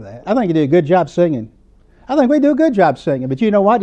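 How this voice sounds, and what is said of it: Southern American accent. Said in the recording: “that southern accent, you don't quite have an English language”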